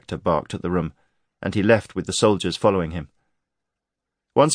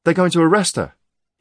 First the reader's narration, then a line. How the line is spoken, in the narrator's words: he blurted